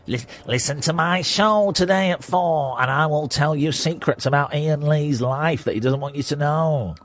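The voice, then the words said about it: Imitates another person's voice. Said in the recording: “Why are you doing that in my voice?”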